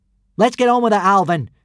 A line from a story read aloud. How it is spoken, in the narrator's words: Hiccup called out